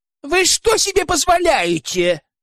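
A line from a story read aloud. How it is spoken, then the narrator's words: Woman shouting from below. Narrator (Russian): Дамочка внизу что-то кричала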